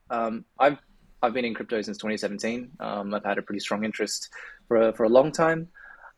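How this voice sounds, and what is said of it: Australian accent. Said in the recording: “for those who can probably tell from my accent, I'm based in Australia”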